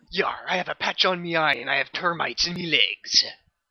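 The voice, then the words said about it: Pirate voice. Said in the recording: “you sound like a little bit like a pirate. There's a little bit of "arr" in your voice there ... That was a good impression of a pirate ... Canadian pirate as well”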